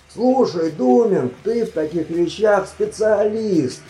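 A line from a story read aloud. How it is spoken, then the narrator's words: Groaning during strenuous climb. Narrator (Russian): Простонал он, когда они достигли дна каньона и начался жуткий, животокрутительный подъем на следующий гребень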